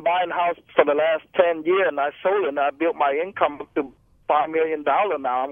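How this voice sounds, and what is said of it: Heavy foreign accent, hard to understand. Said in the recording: “I can barely understand the guy... Where's that accent from?... I didn't think that was a Yorba Linda accent.”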